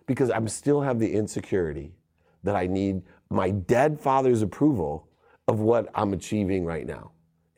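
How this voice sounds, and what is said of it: Choked-up, emotional voice. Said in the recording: “I'm getting choked up here right now”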